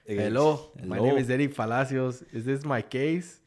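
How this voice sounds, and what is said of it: Exaggerated put-on Mexican accent. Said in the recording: “Answer with a hella Mexican accent.”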